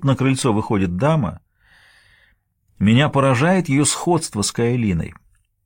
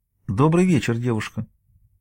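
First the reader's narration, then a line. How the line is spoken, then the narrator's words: Very tender woman. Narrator (Russian): дама очень ласково продолжает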